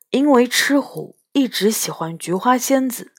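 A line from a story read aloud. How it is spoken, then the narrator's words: Lowered voice. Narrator (Chinese): 杨永乐儿压低了声音说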